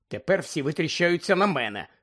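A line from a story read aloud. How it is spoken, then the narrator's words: Angry grumble. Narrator (Ukrainian): сердито буркнула Герміона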